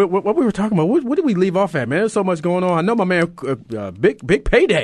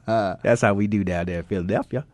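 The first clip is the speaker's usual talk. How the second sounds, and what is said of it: Put-on Southern drawl. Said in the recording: “my little southern drawl, man. That's how we talk down there in Alabama.”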